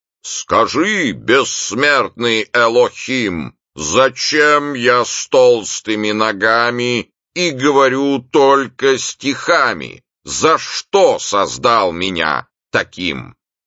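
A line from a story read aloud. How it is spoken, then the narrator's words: Very loud. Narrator (Russian): Вопрос прозвучал настолько громко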